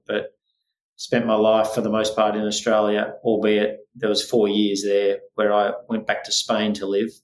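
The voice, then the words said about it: Australian accent. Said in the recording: “I've uh, adopted uh, an Australian accent”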